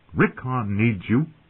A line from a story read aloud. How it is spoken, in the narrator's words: Rob said sharply